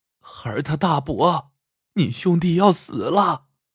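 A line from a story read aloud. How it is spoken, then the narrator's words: Wailing, sobbing. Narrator (Chinese): 翠花哭得死去活来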